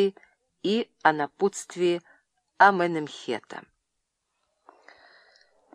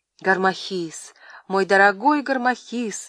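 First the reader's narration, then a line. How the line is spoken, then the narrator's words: Woman exclaiming. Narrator (Russian): воскликнула она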